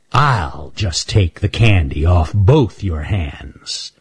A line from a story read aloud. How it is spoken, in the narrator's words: snarled Raker